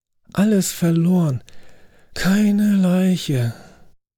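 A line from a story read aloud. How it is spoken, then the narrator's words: Resigned groan. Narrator (German): stöhnte ich und lehnte resignierend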